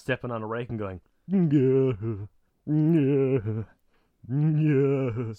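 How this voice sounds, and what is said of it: Sideshow Bob impression. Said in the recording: “A very good Sideshow Bob impression.”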